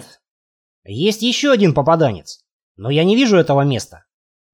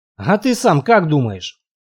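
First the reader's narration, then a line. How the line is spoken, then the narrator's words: Sighing. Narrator (Russian): вздохнул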